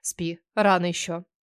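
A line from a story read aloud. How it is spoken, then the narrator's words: Grumbled. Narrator (Russian): мужчина недовольно засопел и пробурчав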